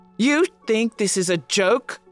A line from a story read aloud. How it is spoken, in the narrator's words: he roars